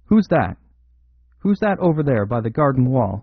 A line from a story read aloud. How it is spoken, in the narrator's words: the unnerved Galloway called out sharply